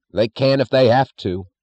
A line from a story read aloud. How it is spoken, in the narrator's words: snapped Chalmers